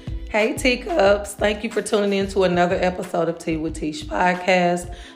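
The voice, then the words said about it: Hoarse voice cutting in and out. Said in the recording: “I'm under the weather, kind of. My voice is completely in and out”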